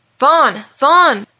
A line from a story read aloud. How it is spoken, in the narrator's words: yelled Malachi